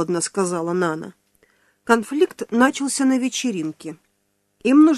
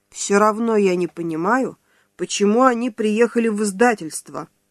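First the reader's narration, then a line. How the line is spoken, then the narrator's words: Angry. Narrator (Russian): зло проговорил Филановский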